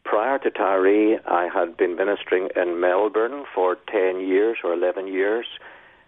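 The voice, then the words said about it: Northern Irish accent. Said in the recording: “I was in Northern Ireland... So I can't change my accent, no matter how hard I try”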